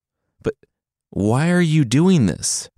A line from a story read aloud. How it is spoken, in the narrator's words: the son pleaded